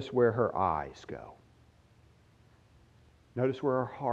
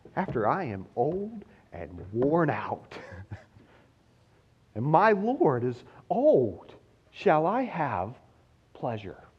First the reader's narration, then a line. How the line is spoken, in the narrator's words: She laughs to herself, where no one could hear, and said